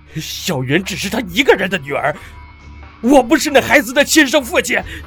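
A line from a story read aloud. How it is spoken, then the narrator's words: Breaking down, shouting. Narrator (Chinese): 玉剑山情绪崩溃，大喊道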